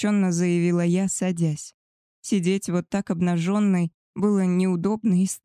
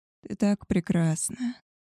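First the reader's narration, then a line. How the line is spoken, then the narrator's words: Hoarse rasp. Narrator (Russian): прохрипел он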